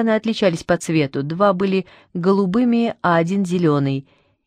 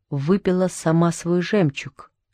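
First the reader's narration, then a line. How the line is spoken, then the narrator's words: Quiet. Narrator (Russian): тихо сказала Анна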